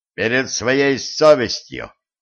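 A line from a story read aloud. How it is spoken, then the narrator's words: Stern, clipped. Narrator (Russian): строго чеканил стажер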